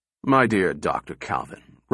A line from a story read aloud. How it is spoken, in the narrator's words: rumbled the general, his voice sinking into the lower baritone registers